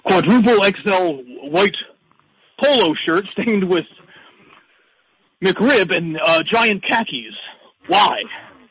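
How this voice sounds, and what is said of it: Imitates another person's voice. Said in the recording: “that was your Trump impression? ... That was my great Trump imitation ... that is definitely lacking ... It sounded nothing like him. It sounded just like him.”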